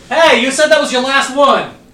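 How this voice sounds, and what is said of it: Shouting loudly. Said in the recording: “Why are you yelling? ... I didn't mean to shout.”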